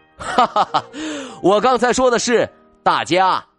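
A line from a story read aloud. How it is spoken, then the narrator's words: Loud laughter. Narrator (Chinese): 金发叔叔大笑起来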